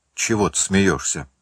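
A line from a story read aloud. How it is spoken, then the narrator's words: Irritated question. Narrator (Russian): раздраженно спросил Ка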